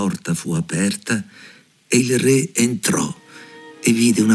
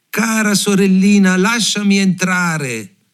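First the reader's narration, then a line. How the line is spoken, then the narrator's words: Shouting. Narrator (Italian): bussò e gridò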